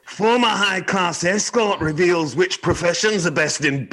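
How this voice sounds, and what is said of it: Terrible attempted Scottish accent. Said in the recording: “I'd like you to try a Scottish accent... I'm really bad at Scottish accents... That's fucking terrible.”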